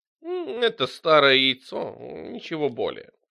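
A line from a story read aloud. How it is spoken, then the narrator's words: Purring. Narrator (Russian): промурлыкала Харвест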